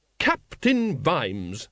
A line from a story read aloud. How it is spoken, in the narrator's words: she said sharply